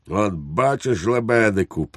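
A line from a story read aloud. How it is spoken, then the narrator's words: Triumphant exclamation. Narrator (Ukrainian): переможно вигукнув підпоручник Дуб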